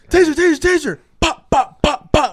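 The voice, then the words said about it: Shouted cop voice impression. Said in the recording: “my cop impression”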